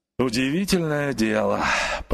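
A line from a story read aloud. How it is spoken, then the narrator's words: Grumbling. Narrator (Russian): проворчал он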